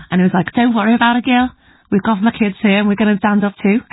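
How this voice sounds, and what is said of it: Good put-on Liverpool accent. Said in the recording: “that was a very good Liverpool accent.”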